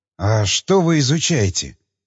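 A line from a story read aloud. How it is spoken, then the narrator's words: Whispered question. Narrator (Russian): шепотом спросил Крейн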